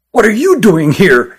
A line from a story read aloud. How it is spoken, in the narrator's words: asked Christopher angrily